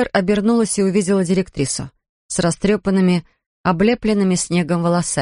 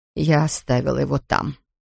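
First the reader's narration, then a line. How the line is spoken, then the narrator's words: Quiet speech. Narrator (Russian): тихо проговорила Ферн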